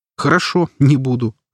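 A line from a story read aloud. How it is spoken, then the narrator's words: Laughing. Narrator (Russian): рассмеялся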